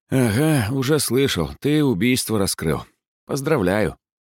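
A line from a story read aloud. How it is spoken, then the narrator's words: Investigator sighing. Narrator (Russian): вздохнул следователь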